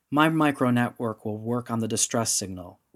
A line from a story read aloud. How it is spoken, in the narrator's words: Rendra replied